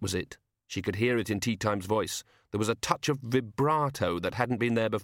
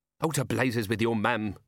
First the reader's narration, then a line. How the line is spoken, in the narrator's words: snapped